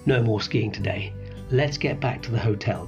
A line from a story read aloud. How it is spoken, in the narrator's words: Dad said